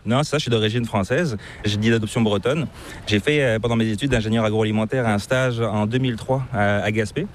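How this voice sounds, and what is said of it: Slight accent, not Québécois. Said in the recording (French): “tu as une petite pointe d'accent qui est assez difficile de deviner. Donc je ne sais pas, c'est pas l'accent québécois.”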